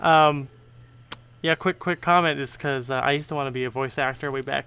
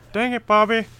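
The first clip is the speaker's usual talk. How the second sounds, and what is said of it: Hank Hill cartoon character impression. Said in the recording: “my Hank Hill impression”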